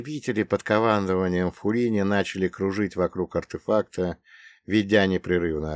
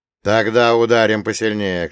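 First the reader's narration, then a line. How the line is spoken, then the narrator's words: Shout. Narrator (Russian): крикнул Артамонов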